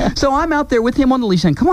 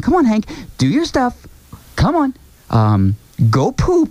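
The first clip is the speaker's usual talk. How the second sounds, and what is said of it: Imitating a woman's coaxing voice. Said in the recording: “I'm trying to do it like her voice ... do my best Laura impression”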